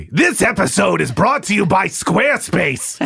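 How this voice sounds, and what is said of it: Loud Gilbert Gottfried impression. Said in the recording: “do a Gilbert impersonation? ... We often do Gilbert impressions ... Did I hurt your levels there, Harry? Harry says I broke the machine.”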